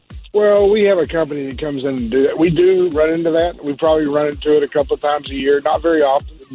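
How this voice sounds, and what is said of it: Southern Texas drawl. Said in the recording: “southern drawl. I am from Texas... you're holding on to that accent”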